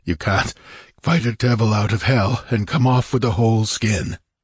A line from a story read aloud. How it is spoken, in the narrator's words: he panted